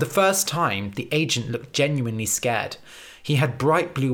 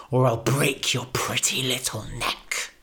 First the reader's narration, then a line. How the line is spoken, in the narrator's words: he spat